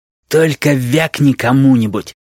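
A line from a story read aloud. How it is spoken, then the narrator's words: Raider's hoarse wheeze. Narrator (Russian): просипел налетчик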